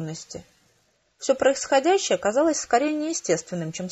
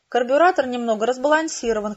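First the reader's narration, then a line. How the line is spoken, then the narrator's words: Shouting over screams. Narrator (Russian): крикнула Хэвишем, перекрывая испуганные вопли пешеходов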